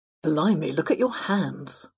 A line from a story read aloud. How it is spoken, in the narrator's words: the fox mumbled